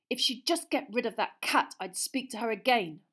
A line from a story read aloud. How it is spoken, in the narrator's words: Ron said angrily